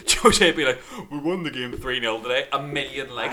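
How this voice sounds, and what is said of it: Poor imitation of another person's voice. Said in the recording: “that's not the best Jose Mourinho impression I've ever heard, because I've never heard him living in a sewer”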